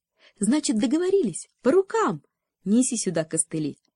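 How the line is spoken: Cheerful offer, knitting needle. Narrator (Russian): предложила весело спица

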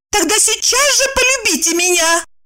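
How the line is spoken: Shouting. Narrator (Russian): крикнула Евдокия

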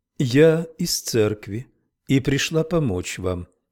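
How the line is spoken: Calm. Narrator (Russian): спокойно сказала она

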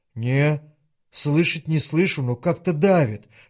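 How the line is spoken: Whispered, without irony. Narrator (Russian): шепнул в ответ Женька, и прежней иронии не было в его голосе

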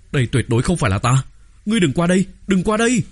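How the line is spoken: Terrified shriek. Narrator (Vietnamese): Sai Tích Dung hoảng sợ, rít lên

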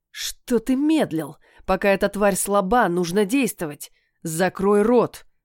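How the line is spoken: Growling. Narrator (Russian): рыкнул парень

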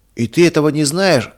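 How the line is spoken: Cheerful combative laugh. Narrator (Russian): засмеялся весело Марк, по обыкновению готовый на бой

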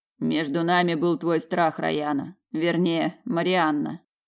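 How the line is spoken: Amused snort. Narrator (Russian): хмыкнул Даргариец

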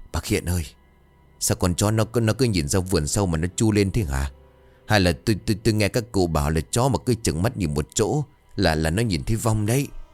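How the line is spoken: Trembling speech. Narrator (Vietnamese): Một trong hai gã bắt đầu run rẩy, bảo

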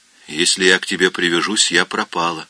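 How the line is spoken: Gloomy. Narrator (Russian): мрачно произнесла Нина

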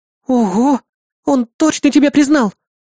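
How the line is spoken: Exclaimed delightedly, bouncing. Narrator (Russian): Восхищенно запрыгав, воскликнула Лия

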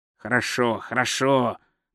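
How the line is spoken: Gloomy. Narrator (Russian): мрачно сказал Кздра

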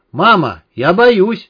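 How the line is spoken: Sudden child's scream. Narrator (Russian): Неожиданно заорал Стасик

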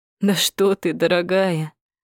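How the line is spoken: Laughing. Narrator (Russian): рассмеялся Гарик

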